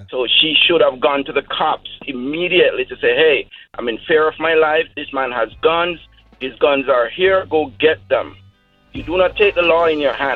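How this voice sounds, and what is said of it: Austrian-accented English. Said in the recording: “I can tell an accent pretty well, and I can tell that you're from Austria.”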